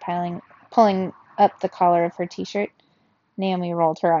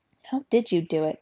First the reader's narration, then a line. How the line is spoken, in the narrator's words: Dante asked quietly